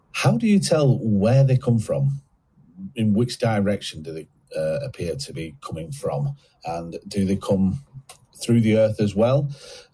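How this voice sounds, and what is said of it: Regional English accent. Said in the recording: “Lovely accent, by the way. It's really good.”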